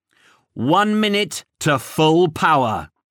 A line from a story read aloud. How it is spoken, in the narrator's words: boomed